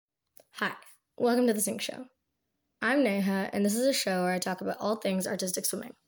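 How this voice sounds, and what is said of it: Slightly congested, off-sounding voice. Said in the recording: “I have a bit of a cold, so I'm sorry if my voice sounds a little off”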